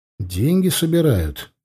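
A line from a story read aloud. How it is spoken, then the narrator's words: Quiet reply. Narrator (Russian): так же тихо ответил я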